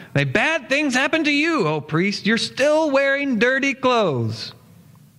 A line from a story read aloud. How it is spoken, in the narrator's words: Malice stood up and shouted